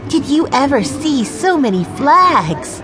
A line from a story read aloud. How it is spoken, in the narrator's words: Violet cried